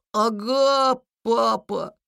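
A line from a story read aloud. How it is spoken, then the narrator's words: Child's strained voice. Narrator (Russian): с трудом выдавил из себя малыш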